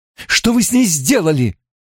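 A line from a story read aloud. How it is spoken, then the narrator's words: Indignant cry. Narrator (Russian): вскрикнула Найниф с негодованием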